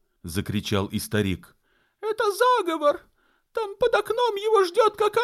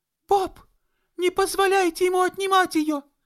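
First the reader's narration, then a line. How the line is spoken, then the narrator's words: Squeal through floor hole. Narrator (Russian): Взвизгнула Энн сквозь дырку в полу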